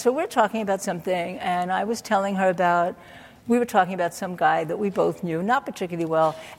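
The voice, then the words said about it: Brooklyn New York accent. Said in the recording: “I grew up in Brooklyn, New York, from my hands or my accent.”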